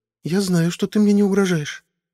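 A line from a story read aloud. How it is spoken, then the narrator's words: Timid. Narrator (Russian): робко сказала Медуларк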